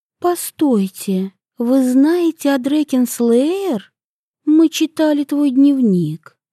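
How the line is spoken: Soft. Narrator (Russian): мягко сказала Агата

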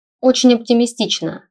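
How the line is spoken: Dry snort. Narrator (Russian): хмыкнул Стелларий

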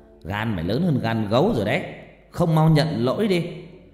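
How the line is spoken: Loud shout, two men. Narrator (Vietnamese): bố của cô Mỹ và thằng sư huynh quát lớn

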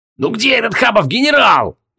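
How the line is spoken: Frantic yelling. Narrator (Russian): истошно вопил Логмир

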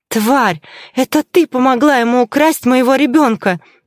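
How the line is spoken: Frantic unrecognizable scream. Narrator (Russian): завопила я, не узнавая собственного голоса

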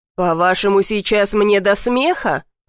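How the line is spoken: Growled. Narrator (Russian): прорычал Дэвид

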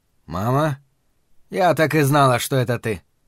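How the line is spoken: Surprisingly impassive tone. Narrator (Russian): произнесла на удивление бесстрастным тоном

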